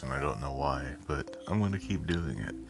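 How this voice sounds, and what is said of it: Deliberately sultry, low voice. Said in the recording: “I'm using my sexy voice”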